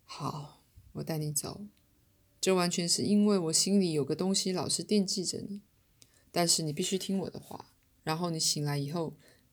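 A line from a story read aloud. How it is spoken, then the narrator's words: Sighing. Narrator (Chinese): 七号叹口气说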